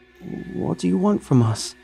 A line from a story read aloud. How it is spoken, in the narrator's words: Stephanie asked in a quivering voice